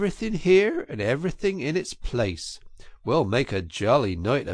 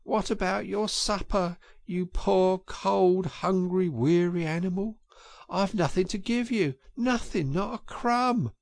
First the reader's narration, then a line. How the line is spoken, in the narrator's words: he moaned